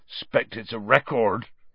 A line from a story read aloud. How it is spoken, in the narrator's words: he said thickly